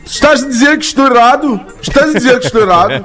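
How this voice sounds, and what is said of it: Put-on European Portuguese accent. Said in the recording (Portuguese): “Português de Portugal, como é que é”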